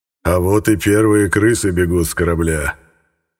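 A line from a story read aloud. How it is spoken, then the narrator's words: Satisfied laughter, ruler. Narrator (Russian): Довольно расхохотался повелитель приграничья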